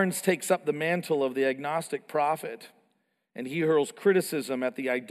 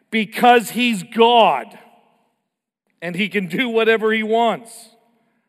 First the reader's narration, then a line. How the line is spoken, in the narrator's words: Julian Barnes, the agnostic, shouts back